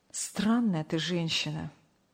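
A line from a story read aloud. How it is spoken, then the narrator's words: Sighing. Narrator (Russian): вздохнул Сергей Павлович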